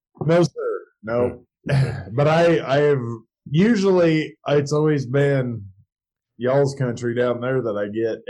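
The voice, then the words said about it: Southern-sounding trucker accent. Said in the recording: “you don't sound like you're from Nebraska whatsoever ... you've kind of got that trucker accent”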